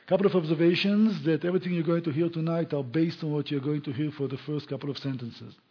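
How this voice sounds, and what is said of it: Speaks with a noticeable accent. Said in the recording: “try to get used to my accent”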